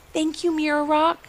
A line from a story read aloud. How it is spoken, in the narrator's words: whispered Ivy